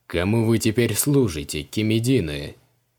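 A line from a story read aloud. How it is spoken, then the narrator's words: Mocking question. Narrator (Russian): насмешливо спросил у них Криол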